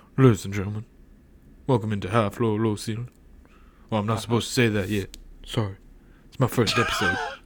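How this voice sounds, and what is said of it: Muted, timid Elvis impression. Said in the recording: “Elvis impression ... Elvis is kind of like... I feel like he's lacking in his traditional confidence ... He's kind of muted.”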